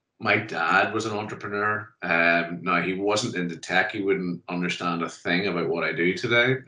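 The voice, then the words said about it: Northern Irish accent. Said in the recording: “you can tell by the accent similar to yours, Phil, is that Northern Ireland”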